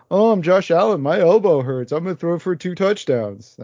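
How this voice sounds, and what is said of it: Imitates another person's voice. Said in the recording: “my impression of that game ... That was my impression of the game”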